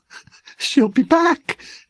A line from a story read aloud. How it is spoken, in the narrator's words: Masterson quavered